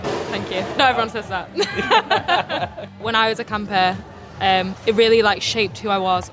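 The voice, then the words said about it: English accent from York. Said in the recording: “I love your accent”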